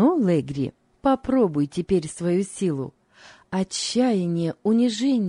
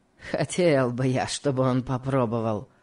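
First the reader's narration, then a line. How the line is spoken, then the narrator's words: Spiteful, smirking. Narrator (Russian): сказал Легри, злобно усмехнувшись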